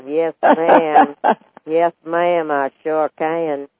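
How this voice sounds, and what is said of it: Put-on slow West Texas drawl. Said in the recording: “she had this real Texas. Can you do a Texas, real Texas? ... I can do that Texas accent. ... slow West Texan drawl”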